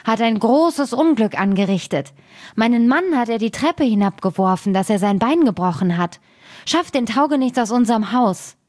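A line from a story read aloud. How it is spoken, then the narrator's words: Woman calling out. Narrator (German): rief sie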